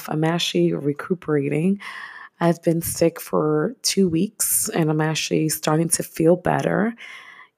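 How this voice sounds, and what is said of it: Voice sounds a little off. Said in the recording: “As you can hear, my voice is a little off”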